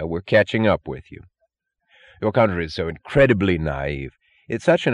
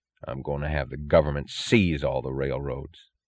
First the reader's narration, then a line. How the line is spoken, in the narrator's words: said, his voice low